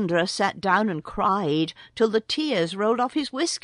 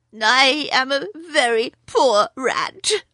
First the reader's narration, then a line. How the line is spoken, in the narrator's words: he sobbed